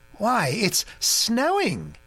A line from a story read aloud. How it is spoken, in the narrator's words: he exclaimed in great surprise